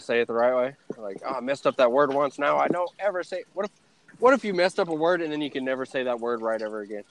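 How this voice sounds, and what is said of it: Texan-sounding accent. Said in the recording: “I still have that accent. People still ask, "Where are you from, Texas?"”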